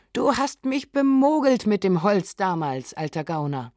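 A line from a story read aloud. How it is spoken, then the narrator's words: Gruff hearty call. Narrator (German): wie es Knaben in rauer Herzlichkeit tun, rief ihm zu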